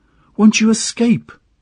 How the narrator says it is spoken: she cried again

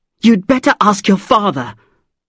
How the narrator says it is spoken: said angrily

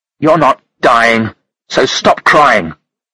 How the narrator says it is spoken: Monica said roughly

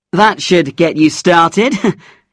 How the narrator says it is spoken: he laughed

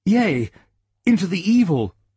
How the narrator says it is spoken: cried the youth

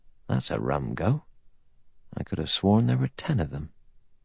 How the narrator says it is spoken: He muttered to himself

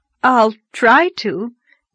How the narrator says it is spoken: gasped Anne, choking back a wild desire to laugh

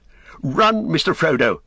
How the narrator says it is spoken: he cried

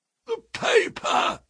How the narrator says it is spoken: croaked a voice behind us

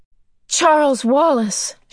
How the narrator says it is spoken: she cried

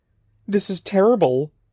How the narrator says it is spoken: cried

